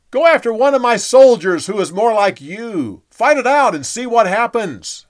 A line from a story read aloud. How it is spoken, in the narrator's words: He yelled back